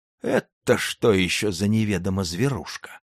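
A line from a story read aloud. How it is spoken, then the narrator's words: Surprised, folksy rustic voice. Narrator (Russian): почти шукшинским голосом удивился подпоручик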